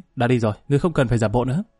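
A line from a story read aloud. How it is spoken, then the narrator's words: Angry. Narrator (Vietnamese): Lý Kỳ tức giận nói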